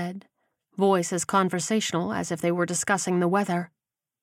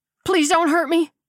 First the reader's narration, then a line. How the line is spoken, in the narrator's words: he cried